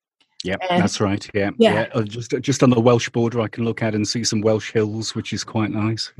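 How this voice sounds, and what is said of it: British accent. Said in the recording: “You're in the UK. We take it by your accent.”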